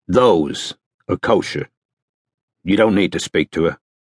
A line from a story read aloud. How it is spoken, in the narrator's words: said Strike firmly